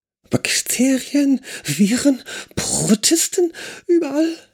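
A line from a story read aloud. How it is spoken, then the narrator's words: Exclaimed. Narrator (German): rief Simon aus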